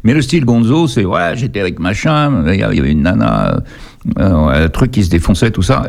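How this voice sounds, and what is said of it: Parisian French accent. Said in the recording (French): “avec ton accent parigot”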